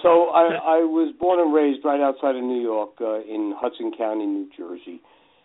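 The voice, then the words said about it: New Jersey accent. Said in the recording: “If you can't tell from my what people say, I have an accent. ... Accent? My goodness.”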